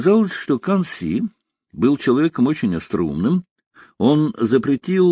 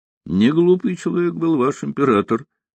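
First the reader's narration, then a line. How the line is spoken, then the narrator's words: Laughing. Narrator (Russian): рассмеялся Рокоссовский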